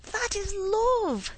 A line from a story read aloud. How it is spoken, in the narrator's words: cried Allan